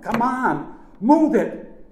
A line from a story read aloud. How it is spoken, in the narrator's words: shouted